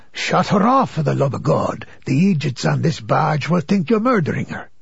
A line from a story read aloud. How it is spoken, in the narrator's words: the devil in my ear whispering